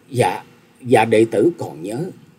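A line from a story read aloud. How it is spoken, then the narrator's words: Trembling. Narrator (Vietnamese): Tần Hương Linh run rẩy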